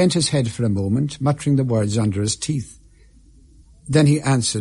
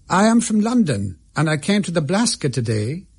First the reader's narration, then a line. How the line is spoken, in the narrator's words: said he with a laugh